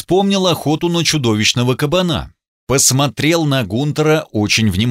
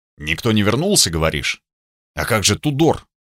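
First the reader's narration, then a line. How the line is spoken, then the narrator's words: Reluctant hesitant mutter. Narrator (Russian): помялся, буркнул очень неохотно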